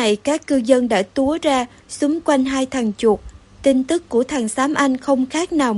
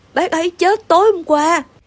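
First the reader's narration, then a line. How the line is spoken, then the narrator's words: Trembling, forced calm. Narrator (Vietnamese): Xám anh cố giữ bình tĩnh nhưng giọng vẫn run run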